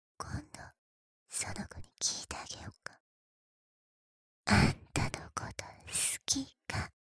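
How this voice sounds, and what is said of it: Whispering. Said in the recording (Japanese): “いっぱいささやいたことだし。 ... はーい、ささやきタイムおしまーい。”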